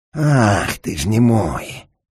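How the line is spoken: Breathed out, menacing man. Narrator (Russian): Выдохнул в самое лицо страшный человек

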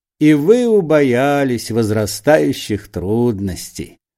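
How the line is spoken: Mocking question. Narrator (Russian): насмешливо спросил Остап

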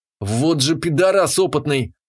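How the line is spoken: Angry cursing. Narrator (Russian): злобно ругался я

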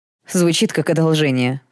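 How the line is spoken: Snort. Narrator (Russian): фыркнул Даррелл

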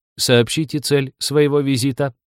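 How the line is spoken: Metallic demanding voice. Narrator (Russian): Лиза металлическим голосом потребовала

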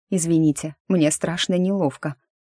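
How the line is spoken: Muttered. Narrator (Russian): пробормотала

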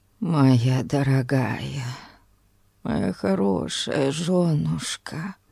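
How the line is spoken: Mumbling. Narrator (Russian): пробормотал он

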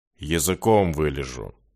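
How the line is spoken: Gloomy promise. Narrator (Russian): мрачно пообещал Джай

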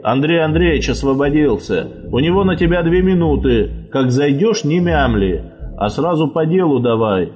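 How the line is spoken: Stern instruction. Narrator (Russian): строго наставлял старика дежурный

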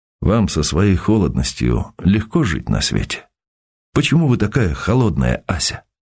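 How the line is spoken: Sad, strained question. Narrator (Russian): пересиливая себя, спросил грустно

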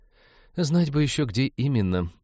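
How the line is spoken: Despairing sigh. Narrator (Russian): вздохнула Иветта, отчаявшись прочесть письмо

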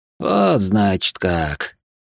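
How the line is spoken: Thoughtful drawl, adviser. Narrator (Russian): задумчиво протянул советник

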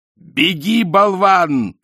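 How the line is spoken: Shout. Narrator (Russian): крикнул Ринцвинд

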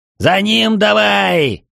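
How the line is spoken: Yelling. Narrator (Russian): заорал Браксет

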